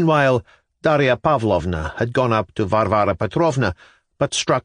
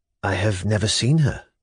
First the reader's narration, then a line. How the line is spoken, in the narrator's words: Dasha answered quietly